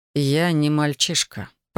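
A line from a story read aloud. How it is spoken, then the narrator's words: Through gritted teeth. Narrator (Russian): процедил Александр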